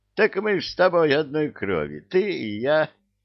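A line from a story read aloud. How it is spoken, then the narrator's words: Laughing devil. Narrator (Russian): засмеялся дьявол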